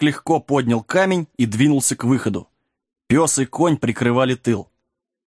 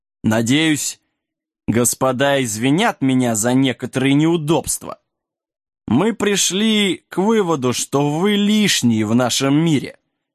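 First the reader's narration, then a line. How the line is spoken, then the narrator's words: Mocking question. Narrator (Russian): Барон де Блю насмешливо спросил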